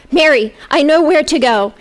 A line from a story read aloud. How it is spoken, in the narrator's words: He cried